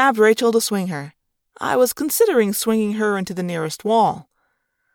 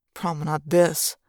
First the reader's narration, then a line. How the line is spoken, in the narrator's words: I muttered darkly